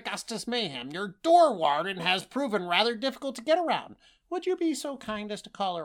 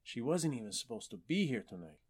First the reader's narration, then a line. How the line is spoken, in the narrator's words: he muttered to himself